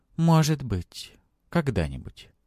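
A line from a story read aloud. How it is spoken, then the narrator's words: Calm. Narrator (Russian): спокойно произнесла она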